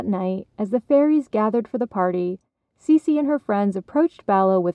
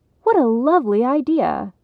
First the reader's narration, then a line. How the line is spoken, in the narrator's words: Cece exclaimed